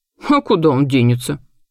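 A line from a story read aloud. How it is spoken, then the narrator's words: Snorting. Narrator (Russian): фыркнула госпожа Амельда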